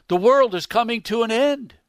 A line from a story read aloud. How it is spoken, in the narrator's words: Even Miss Horton was startled and cried out